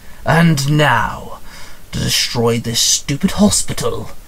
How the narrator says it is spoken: the monster growled

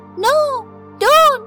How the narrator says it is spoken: She screamed

